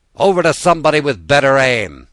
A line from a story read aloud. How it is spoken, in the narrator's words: the commander shouted